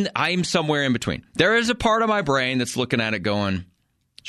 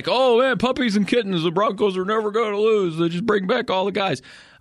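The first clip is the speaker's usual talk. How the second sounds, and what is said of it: Imitates another person's voice, poorly. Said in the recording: “that wasn't a very good impression of you”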